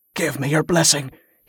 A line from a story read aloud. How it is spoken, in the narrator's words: he gasped